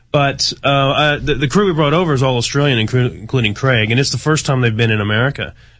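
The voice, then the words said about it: Texan accent with Australian hybrid. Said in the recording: “I'm American, as you can hear from my voice. I'm actually a Texan ... You've picked up part of the accent ... I've got some strange hybrid, which no one understands now”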